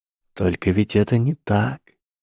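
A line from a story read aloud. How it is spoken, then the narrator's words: Inner whisper. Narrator (Russian): прошептал голос Гарри Поттера в голове Драко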